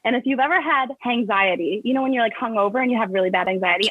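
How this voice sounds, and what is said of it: Very fast speech. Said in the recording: “I'm talking like a mile a minute”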